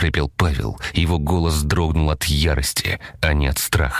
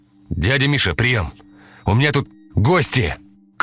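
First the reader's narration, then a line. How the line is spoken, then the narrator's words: Shouted into microphone. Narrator (Russian): крикнул он в микрофон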